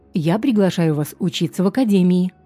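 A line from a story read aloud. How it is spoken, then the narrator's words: Plain, immediate. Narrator (Russian): сходу сказал он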